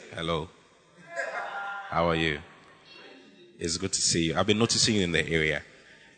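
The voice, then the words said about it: Deliberately deep voice. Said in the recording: “you need to use a deep voice. Even if you don't have a deep voice, you must try”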